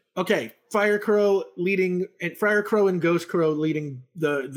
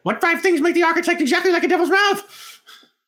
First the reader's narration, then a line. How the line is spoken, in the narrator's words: just going to start screaming while they run